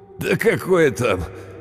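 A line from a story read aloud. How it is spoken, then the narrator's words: Laughing. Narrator (Russian): он рассмеялся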